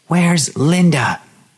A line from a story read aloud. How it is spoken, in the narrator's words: she screamed at him